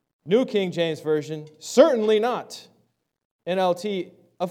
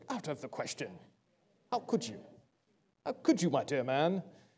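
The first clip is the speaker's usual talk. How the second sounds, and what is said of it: Put-on British accent. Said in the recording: “It sounds more British”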